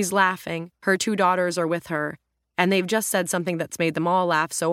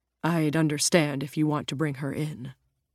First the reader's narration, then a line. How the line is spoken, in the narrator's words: Jim says quietly, worried that his son's changed his mind